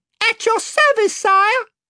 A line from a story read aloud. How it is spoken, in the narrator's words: piped Reby Cheep from another corner